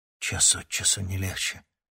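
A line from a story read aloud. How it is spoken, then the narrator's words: Muttering. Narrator (Russian): буркнул Никита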